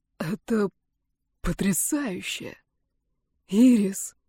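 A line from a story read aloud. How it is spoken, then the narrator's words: Gulping, breathless exhale. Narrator (Russian): Он вдруг гулко сглотнул и выдохнул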